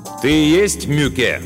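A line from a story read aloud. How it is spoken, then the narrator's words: Loud question. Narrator (Russian): громко спросил Мартин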